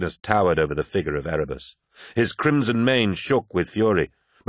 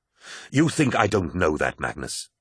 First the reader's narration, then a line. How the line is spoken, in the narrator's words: snapped Horus